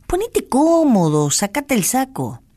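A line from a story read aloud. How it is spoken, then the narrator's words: Fatherly advice. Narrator (Spanish): le aconsejó con tono paternal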